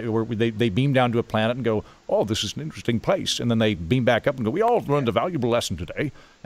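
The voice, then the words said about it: Attempted Picard English accent impression. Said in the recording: “Just trying to get your English accent. ... That was my Picard attempt with very little.”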